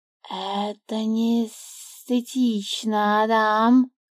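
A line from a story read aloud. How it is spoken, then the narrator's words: Hissing snake. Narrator (Russian): прошипел змей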